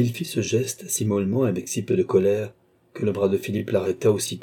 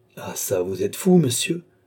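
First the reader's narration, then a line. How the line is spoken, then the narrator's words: Exclaiming. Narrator (French): s'écria Balsamo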